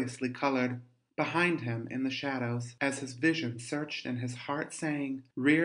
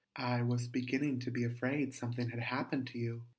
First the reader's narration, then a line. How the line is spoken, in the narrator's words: he said quietly enough, but in a way that the other understood